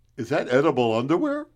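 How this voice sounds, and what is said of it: Imitates a medical examiner's voice. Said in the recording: “do an impression of the coroner, of the medical examiner, looking at your body”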